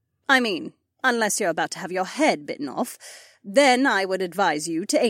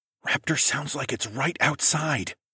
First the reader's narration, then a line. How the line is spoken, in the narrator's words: I said, quieter than a whisper